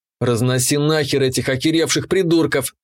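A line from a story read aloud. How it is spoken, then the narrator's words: Angry, vicious. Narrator (Russian): злобно определил я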